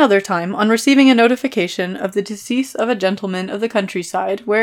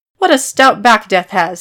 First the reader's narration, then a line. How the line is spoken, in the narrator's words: he exclaimed